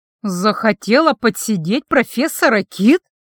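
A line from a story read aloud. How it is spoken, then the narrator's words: Furious restrained hiss. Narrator (Russian): злобно прошипела я, с трудом сдерживаясь, чтобы не наброситься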